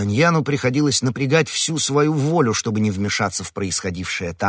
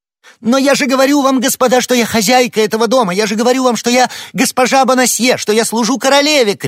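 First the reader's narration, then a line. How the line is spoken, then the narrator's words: Distressed woman shouting. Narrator (Russian): кричала несчастная женщина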